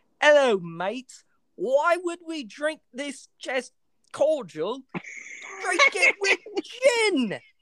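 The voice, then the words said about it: Bad put-on British Cockney accent. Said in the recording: “Terrible British accent. Awful. ... terrible British accents ... Cockney.”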